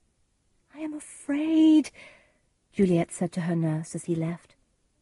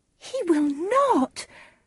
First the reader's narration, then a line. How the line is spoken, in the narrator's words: cried Juliet